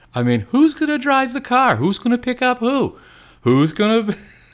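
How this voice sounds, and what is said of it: Jerry Seinfeld impression. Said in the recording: “Was that a Seinfeld impression? ... Yeah, I tried to do it. ... That was probably wasn't that good.”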